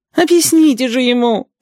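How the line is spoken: Groaning twins. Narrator (Russian): стонали желтые близнецы

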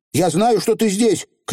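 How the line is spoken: Shouting. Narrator (Russian): крикнула Тиффани

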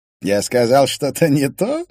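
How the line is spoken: Laughing. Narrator (Russian): рассмеялся Финн

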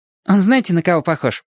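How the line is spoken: Cheerful interjection. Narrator (Russian): весело вмешалась музыкантша

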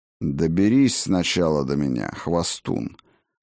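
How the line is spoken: Calm. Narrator (Russian): Спокойно ответил я

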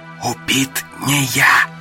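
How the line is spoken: Whisper. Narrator (Russian): шепотом сказал Гарин

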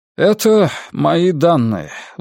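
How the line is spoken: Strained, forced out. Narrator (Russian): выдавил контролер Вальтер Динге

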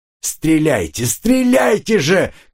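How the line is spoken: Shouting. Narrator (Russian): кричал капитан Год

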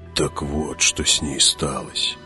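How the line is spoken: Muttering. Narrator (Russian): пробормотал Хават

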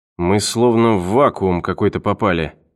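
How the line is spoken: Muttered. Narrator (Russian): пробормотал он

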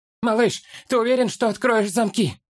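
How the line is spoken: Shouted. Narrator (Russian): приблизившись к другу, крикнул хоббит

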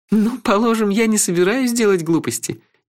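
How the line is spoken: Sudden laugh. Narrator (Russian): неожиданно рассмеялась леди Хенна

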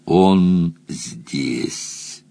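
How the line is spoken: Commanding growl. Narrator (Russian): властно указала на кровать и прорычала

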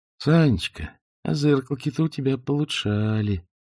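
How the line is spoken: Tender, puzzled, glad. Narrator (Russian): заговорил он ласково, чуть недоумевающе, но одновременно с какой-то долей радости

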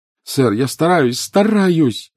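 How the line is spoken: Desperate cry. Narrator (Russian): отчаянно вскрикнул Гарри

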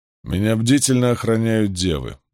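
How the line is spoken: Gloomy. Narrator (Russian): мрачно заметил он

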